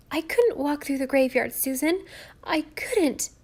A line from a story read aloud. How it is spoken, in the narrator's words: gasped Nan